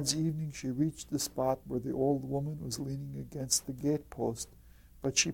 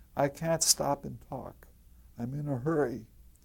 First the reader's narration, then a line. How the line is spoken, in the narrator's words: answered the girl